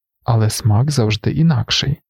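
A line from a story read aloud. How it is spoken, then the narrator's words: Plain. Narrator (Ukrainian): сказав лікар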